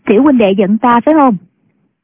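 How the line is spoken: Young woman, smiling. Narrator (Vietnamese): Thiếu nữ mỉm cười nói

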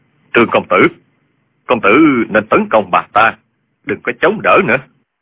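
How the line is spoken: Low voice. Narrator (Vietnamese): Dương Tiêu hạ giọng nói

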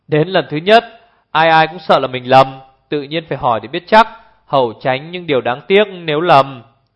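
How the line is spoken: Hearty laughter. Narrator (Vietnamese): Hồ Thiết Hoa bật cười ha ha

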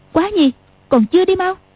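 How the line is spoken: Shouting. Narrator (Vietnamese): Tiểu Long Nữ quát

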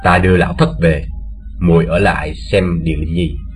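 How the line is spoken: Soft words. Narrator (Vietnamese): khẽ bảo Tô Như

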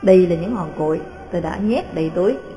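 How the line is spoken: Cold reply. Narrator (Vietnamese): Jean trả lời lạnh lùng

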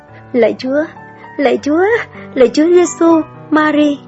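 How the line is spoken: Muffled trembling stammer. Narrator (Vietnamese): cô ta úp mặt vào tường nói lắp bắp, giọng run run

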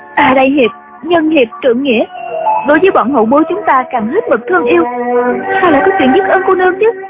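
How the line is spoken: Trembling voice. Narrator (Vietnamese): Chú Chỉ Nhược đứng dậy run run nói

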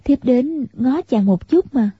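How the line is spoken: Smiling speech. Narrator (Vietnamese): Tiểu Long Nữ mỉm cười, nói

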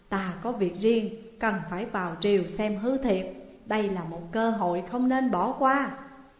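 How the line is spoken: Sighing. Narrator (Vietnamese): Hàn Tín thở dài

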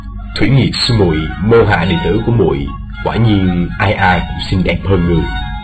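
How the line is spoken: Soft reply. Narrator (Vietnamese): Thương Tùng đạo nhân khẽ đáp

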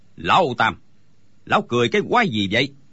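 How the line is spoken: Shouted. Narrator (Vietnamese): Đinh Bất Tứ quát lên

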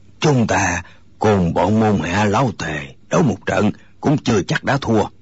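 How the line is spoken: Hoarse, defiant. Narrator (Vietnamese): Người nói tiếng khàn khàn dường như không phục, gã nói

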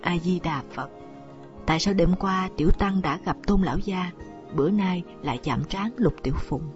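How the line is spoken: Embarrassed monk, sighing mutter. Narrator (Vietnamese): Nhà sư chất phác thẹn quá, buông tiếng thở dài, miệng lẩm bẩm

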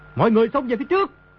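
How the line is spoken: Desperate loud shout. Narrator (Vietnamese): Đồ Nhĩ Bố Thanh thầm kêu khổ, biết đã trúng kế địch nhân, quát lớn

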